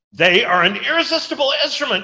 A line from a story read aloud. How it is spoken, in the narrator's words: shouted Strait